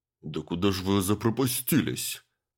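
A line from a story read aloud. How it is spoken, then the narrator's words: Grumbling. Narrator (Russian): проворчал Андрей Павлович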